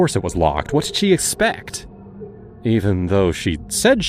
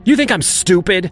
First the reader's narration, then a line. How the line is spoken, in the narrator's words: she shouted at me